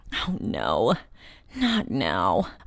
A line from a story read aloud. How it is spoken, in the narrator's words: I moaned